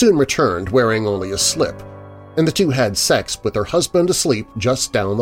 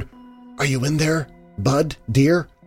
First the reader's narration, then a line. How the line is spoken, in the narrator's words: whispered